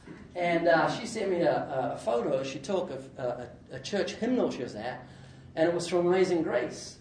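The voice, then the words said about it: Slight New Zealand accent. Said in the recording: “I've got a slight accent, it's because I'm from New Zealand.”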